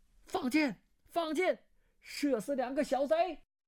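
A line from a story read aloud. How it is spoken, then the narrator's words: Loud shout. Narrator (Chinese): 对剑有人大声叫道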